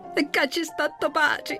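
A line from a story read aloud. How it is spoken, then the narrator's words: Happy shriek. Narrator (Italian): strillò felice Agesilao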